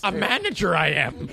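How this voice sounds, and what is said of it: Yoda character voice. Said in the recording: “do the Yoda voice”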